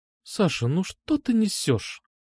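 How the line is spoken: Quiet. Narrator (Russian): тихо сказала она

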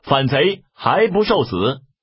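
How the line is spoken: Shouting. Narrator (Chinese): 当先一将乃关云长也，大叫

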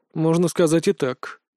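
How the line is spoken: Mutter. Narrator (Russian): пробормотал Костя

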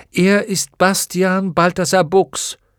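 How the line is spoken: Calling out. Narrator (German): rief

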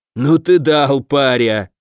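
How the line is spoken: Booming laughter. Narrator (Russian): Аш гулко расхохотался

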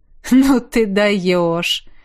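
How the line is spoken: Laughing. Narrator (Russian): Рассмеялся

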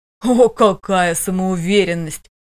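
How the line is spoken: Angry laughter. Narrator (Russian): зло рассмеялся жених

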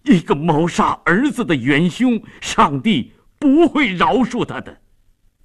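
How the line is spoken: Shocked, grief-stricken shout. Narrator (Chinese): 费迪南异常震惊 悲愤地喊着

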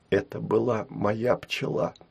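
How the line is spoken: Whispered. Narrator (Russian): шепотом сказала Улу Яра

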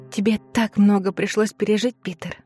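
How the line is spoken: Whisper. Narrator (Russian): прошептала

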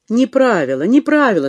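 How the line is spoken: Laughing. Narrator (Russian): смеялась Ольга

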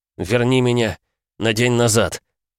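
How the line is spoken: Hoarse, spitting blood. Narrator (Russian): прохрипел я, сплевывая на землю кровь

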